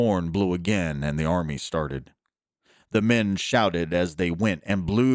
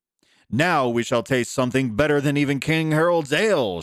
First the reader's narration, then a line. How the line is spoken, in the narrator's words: shouted one